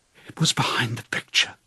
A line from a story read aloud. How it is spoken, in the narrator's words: breathed Julia